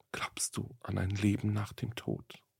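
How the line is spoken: Young woman's sudden whisper. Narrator (German): Wie aus dem Nichts habe die junge Frau geflüstert

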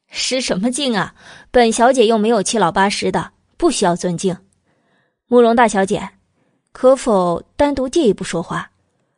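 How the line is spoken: Smiling, blunt. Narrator (Chinese): 阮明月一笑，开门见山的

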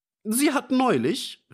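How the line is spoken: Old man interrupting loudly. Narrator (German): rief der alte Fischer dazwischen

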